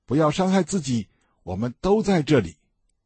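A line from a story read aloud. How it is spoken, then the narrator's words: Loud calling out. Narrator (Chinese): 保罗大声呼叫说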